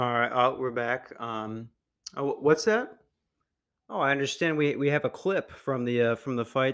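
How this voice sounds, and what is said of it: Usual voice. Nothing is said of it.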